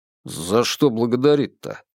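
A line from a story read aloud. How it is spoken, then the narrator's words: Grumbling mutter. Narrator (Russian): пробурчал Бабкин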